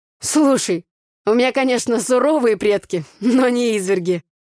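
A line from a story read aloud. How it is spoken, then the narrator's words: Laughing. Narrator (Russian): засмеялся Игорь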